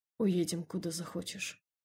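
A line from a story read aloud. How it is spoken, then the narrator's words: Quiet. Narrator (Russian): негромко сказал он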